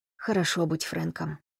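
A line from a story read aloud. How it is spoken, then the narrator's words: Mutter. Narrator (Russian): пробормотал он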